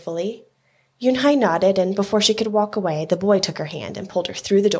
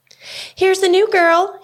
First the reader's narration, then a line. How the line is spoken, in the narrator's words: he announced so loudly